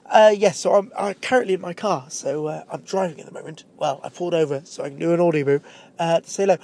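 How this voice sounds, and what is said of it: English accent, bunged-up head-cold voice. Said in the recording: “I have a very English accent ... I have a terrible English accent because I moved away when I was about 17 and went to live in a very posh part of England ... I have a bit of a head cold at the moment ... I'm a bit bunged up”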